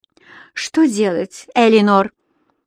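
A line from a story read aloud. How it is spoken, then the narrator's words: Sigh after laughing. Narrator (Russian): насмеявшись, вздохнула Энсли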